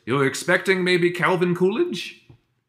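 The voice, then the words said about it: Put-on German accent. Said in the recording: “in German accent”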